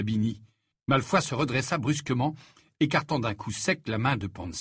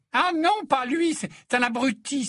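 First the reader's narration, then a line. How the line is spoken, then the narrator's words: Exclaiming. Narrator (French): s'exclama Pansy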